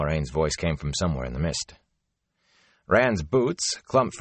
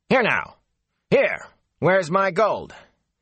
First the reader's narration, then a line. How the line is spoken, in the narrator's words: Master Hightower called out angrily